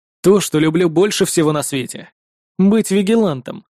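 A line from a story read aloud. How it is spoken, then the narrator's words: Cold reply. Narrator (Russian): холодно ответил я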